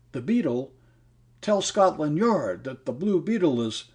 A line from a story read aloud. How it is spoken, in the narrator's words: a dying man fell in, and after gasping